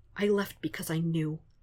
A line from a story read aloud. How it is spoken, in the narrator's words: Foggy whispers in that same tearful voice